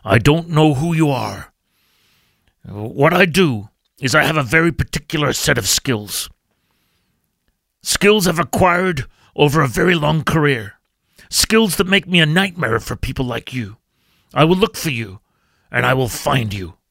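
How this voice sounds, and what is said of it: Imitates another person's voice, poorly. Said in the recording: “I'll put on the Liam Neeson accent ... that's a pretty bad Liam Neeson accent”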